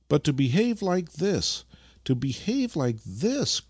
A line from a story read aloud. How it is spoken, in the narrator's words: cried the old man with unrestrained grief